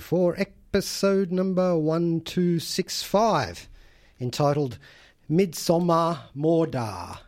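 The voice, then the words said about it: Attempted Swedish accent. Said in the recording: “I'm trying to do my Swedish accent there”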